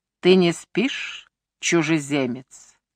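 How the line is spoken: Quiet, low voice. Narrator (Russian): спросил он тихим, низким голосом

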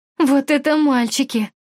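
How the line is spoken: Giggling girls commenting. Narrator (Russian): комментировали девушки сзади, хихикая

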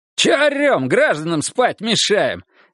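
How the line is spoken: Cheerful shout. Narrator (Russian): весело выкрикнул Монахов

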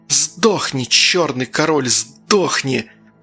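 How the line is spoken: Through gritted teeth. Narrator (Russian): процедила Агата

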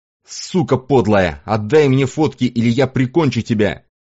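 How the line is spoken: Shouting, cut off. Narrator (Russian): прокричать

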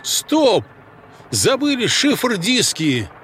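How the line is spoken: Loud exclamation. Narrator (Russian): Громко воскликнул я

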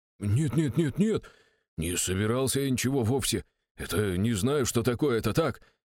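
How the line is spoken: Very unsure, defense minister. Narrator (Russian): сказал как-то слишком уж неуверенно для министра обороны

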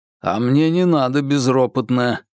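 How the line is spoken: Growling reply. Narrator (Russian): рычал в ответ Бабкин

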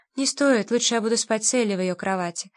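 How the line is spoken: Calm reply. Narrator (Russian): спокойно ответил Ругер

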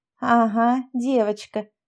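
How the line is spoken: Spiteful laugh. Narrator (Russian): засмеялась Тонька зло

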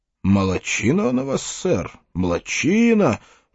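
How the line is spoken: Muttered. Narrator (Russian): пробормотал один из новой династии королей Скукумбенча

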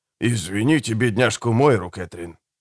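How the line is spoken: Whisper. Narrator (Russian): шепнул Чадли Помрой

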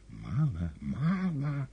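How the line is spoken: Whispering. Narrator (Russian): шептал Коровьев

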